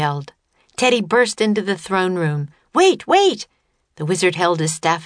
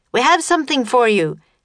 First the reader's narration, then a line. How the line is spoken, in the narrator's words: Teddy shouted at the wizard